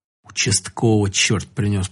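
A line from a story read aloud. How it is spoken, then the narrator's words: Grandmother muttering. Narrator (Russian): пробормотала бабушка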